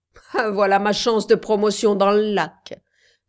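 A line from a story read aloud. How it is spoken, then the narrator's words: Laughing. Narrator (French): dit Garthwaite en riant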